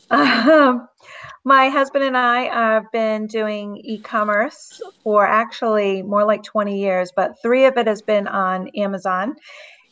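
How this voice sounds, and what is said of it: Southeast Massachusetts accent. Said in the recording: “I'm from Southeast Massachusetts, if you can't tell by my accent.”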